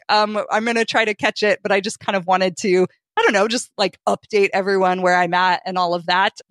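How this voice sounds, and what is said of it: Weak, sick-sounding voice. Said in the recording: “I came back to the flu and bronchitis ... my voice is a little weak.”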